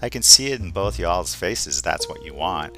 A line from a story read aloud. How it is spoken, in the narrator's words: Luca just laughs and says under his breath